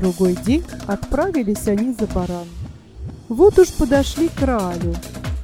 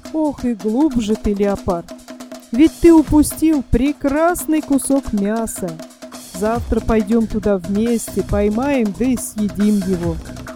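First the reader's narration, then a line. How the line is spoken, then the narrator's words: Laughing. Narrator (Russian): Засмеялся шакал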